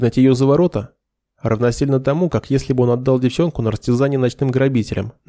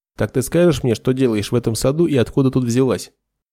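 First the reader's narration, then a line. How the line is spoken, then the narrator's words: Cold. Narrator (Russian): Холодно начал Нед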